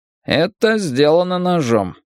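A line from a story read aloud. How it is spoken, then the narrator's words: Dry. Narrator (Russian): сухо сказал он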